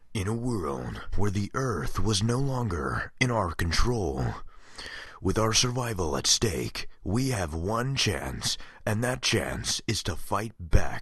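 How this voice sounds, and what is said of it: Deep movie trailer narrator voice. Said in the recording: “my movie trailer guy impression”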